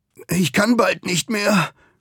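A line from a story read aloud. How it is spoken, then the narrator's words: Groan. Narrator (German): stöhnt Ugur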